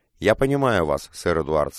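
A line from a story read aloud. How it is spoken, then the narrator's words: Plain. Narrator (Russian): сказал я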